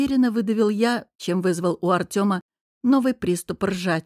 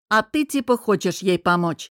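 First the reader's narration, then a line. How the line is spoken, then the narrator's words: Snapping back. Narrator (Russian): огрызнулся друг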